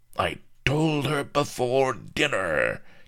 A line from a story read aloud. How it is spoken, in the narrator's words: cackled Lardo